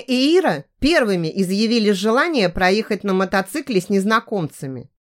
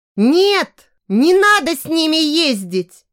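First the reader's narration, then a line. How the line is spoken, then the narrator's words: Frightened shout. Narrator (Russian): Закричала перепуганная Даша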